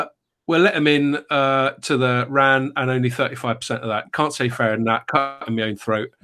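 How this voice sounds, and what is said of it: Usual voice. Nothing is said of it.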